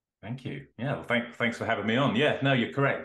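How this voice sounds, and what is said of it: Norfolk English accent. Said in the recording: “just by listening to my accent, you can tell I'm not a born and bred Yorkshireman... I was actually born in Norfolk”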